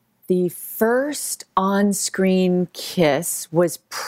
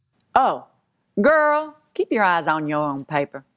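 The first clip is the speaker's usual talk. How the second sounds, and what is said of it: Imitating her mother's accent. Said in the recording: “give me the accent, she'd say it in”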